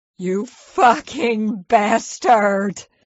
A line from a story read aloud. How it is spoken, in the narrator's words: she wailed